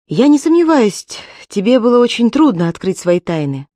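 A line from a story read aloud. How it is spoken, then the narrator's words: Resolute, after a sigh. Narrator (Russian): Она решительно вздохнула и сказала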